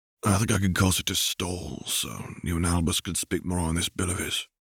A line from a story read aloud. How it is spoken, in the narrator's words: Sirius muttered to James